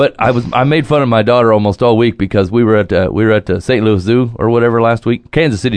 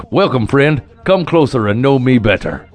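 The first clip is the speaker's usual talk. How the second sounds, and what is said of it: Jolly giant character voice, slight accent. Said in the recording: “You had like a little accent of some sort going on... he's a big jolly giant, and I can't really pull it off”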